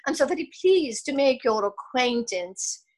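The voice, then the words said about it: Good put-on British accent. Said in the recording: “in my very good British accent.”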